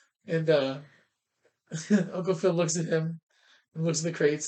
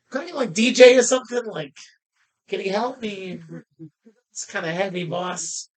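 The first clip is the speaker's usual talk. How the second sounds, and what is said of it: Put-on New York accent. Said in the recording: “what was his accent again? Was it Boston? Oh, it was New York.”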